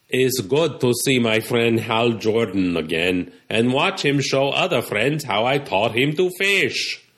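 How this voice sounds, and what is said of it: Character voice with Russian accent. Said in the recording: “his parents were Russian, and that's why he speaks. ... In a Russian accent.”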